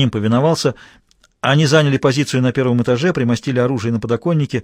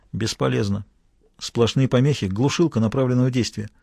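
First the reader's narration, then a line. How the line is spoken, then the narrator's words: Whisper. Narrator (Russian): Ганим шепнул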